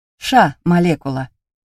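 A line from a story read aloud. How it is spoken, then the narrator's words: Loud bark. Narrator (Russian): гаркнул папа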